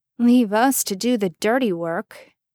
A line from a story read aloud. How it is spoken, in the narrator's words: Jess grumbled